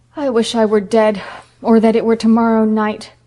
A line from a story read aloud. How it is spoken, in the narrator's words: groaned Phil